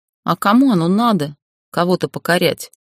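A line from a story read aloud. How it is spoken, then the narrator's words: Displeased snort. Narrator (Russian): Недовольно скривив губы, фыркнула я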